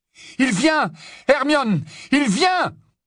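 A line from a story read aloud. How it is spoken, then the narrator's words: Yelling. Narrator (French): Alors qu'il hurlait ainsi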